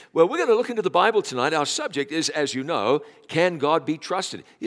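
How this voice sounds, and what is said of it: Noticeable foreign accent. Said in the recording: “You haven't lost your accent ... man, you have an accent”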